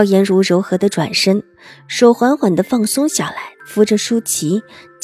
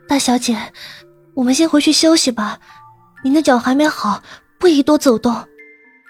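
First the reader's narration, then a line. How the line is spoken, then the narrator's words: Low, pained pleading. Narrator (Chinese): 舒淇疼得脸色发白，却不敢发出声音来，只低低的哀求道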